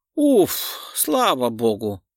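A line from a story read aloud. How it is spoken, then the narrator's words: Old woman's relieved sigh. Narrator (Russian): облегченно вздохнула старушка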